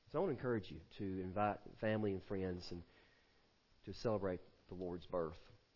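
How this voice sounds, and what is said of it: Congested, stopped-up, hoarse voice. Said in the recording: “I sound like a cat with a hairball this morning ... I'm kind of stopped up today.”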